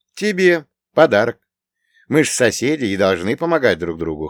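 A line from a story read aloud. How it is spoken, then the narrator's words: Wry snort. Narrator (Russian): хмыкнул я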